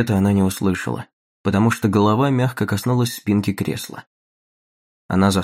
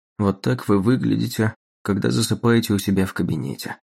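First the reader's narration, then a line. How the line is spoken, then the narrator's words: Soft. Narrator (Russian): мягко произнес он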